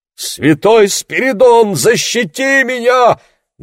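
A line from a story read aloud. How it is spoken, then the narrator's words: Loud exclamation. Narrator (Russian): громко воскликнул Яни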